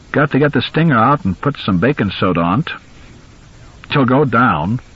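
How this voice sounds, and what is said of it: Thick Down East Maine accent. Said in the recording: “the voice was so thick with Down East accent that for a moment, Lewis's tired, confused mind refused to translate the dialect”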